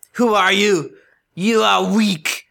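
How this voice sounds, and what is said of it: Weird put-on Nordic-style accent. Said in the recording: “What is this accent that you just did? ... It's like a weird, ... Weird Brian, Nordic like. Schwarzenegger ... kind of thing.”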